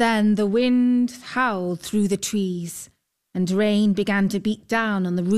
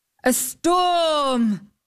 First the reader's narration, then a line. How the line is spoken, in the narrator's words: exclaimed the knight